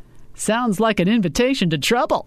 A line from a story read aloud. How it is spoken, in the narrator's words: Ken laughed